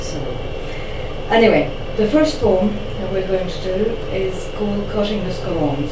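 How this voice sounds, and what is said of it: French accent in English. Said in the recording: “I'm French, 100% French... I sound French”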